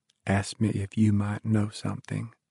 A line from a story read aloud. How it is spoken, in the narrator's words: his mother said softly